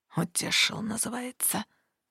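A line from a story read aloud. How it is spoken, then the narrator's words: Through gritted teeth. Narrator (Russian): сквозь зубы процедил правитель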